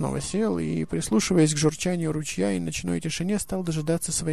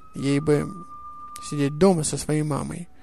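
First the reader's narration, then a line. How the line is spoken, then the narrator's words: Grumble. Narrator (Russian): проворчал снос Мумрик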